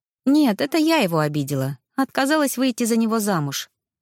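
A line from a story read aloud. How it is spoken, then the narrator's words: Sighing. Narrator (Russian): вздохнула я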